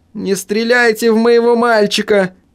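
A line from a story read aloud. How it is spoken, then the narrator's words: Shrieking scream. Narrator (Russian): завизжала Гертруда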